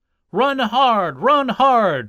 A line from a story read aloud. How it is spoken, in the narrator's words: shouted his backers